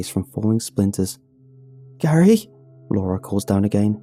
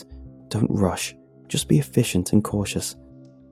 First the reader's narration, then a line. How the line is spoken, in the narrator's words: I mutter to myself